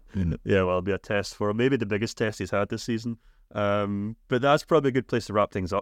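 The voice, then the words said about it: Thick Scottish accent. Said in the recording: “my thick Scottish accent ... Definitely won't be able to understand you.”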